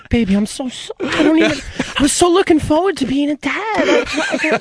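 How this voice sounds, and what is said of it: Sweet-talking phone voice for a girlfriend. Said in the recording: “You put your girl voice on the phone. The voice you talk to when you're on the phone with a girl.”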